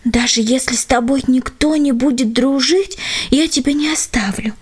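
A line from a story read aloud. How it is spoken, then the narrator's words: Parting whisper. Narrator (Russian): шепнула она напоследок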